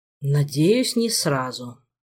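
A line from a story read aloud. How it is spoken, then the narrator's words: Sigh. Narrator (Russian): вздохнул Макс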